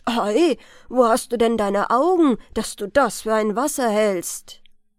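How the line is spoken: Mocking man's call. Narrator (German): ruft ein Mann, und das war der Zauberer, neben ihr ganz spöttisch

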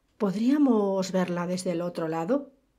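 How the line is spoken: Plain question. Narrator (Spanish): preguntó Horace

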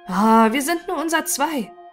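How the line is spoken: Calling out. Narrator (German): rief Haska

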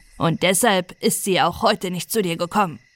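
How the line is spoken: Stern. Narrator (German): sagte streng

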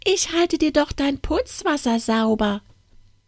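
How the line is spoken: Fine squeaky voice. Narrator (German): sprach die feine, piepsige Stimme

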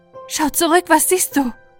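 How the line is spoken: Horse calling out. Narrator (German): Das Pferd rief dem Reiter

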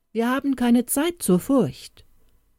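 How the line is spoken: Calling out across field. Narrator (German): rief er ins Feld hinaus

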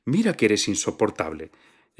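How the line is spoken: Hostess exclaiming. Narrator (Spanish): exclamó la anfitriona

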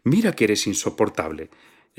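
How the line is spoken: Exclaiming. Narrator (Spanish): exclamó la anfitriona

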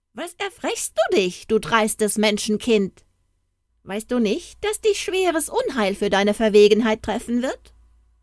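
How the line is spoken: Dwarf's exclamation. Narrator (German): rief ein Zwerg aus

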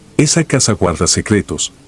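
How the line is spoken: Plain. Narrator (Spanish): dijo

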